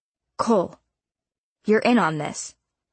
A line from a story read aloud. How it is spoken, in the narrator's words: Sheriff Jackson barked